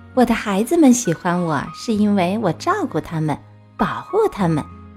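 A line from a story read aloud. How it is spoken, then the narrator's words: Warm smiling. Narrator (Chinese): 猫妈妈笑眯眯地回答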